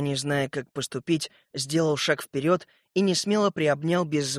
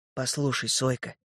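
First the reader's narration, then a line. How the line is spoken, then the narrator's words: Quiet. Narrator (Russian): тихо сказал я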